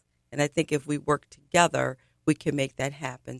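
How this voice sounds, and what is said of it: Excited voice. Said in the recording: “if you can't tell in my voice, I'm really excited.”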